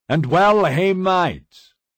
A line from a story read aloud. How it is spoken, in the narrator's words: shouted